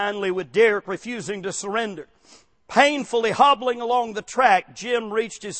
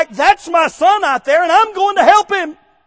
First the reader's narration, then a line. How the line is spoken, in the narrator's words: He simply yelled back